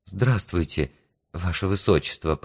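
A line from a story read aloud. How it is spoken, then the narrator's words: Whisper. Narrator (Russian): прошептала она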